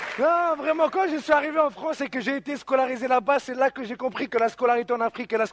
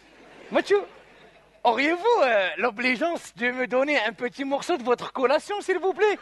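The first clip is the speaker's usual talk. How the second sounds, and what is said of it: Formal French with Arabic accent. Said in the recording (French): “avec un français soutenu et un accent d'arabe”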